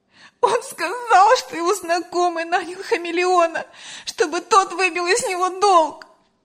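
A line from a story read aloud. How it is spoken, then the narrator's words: Bursting into sobs. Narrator (Russian): разрыдалась Лена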